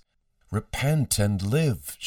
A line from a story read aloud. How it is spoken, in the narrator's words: she called out over the chaos